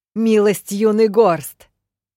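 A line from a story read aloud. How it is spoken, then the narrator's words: Mocking yell. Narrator (Russian): насмешливо заорала я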